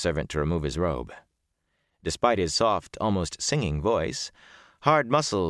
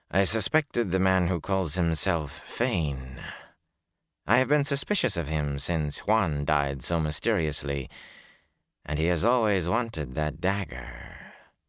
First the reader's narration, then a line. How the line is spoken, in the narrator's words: the shaven-headed man said calmly